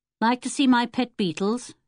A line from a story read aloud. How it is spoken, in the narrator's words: he said